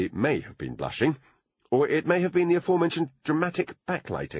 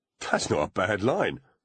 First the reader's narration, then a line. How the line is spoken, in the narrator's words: muttered Foley